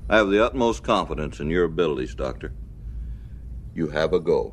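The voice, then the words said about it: Russian accent. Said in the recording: “Good Russian accent for a Canadian.”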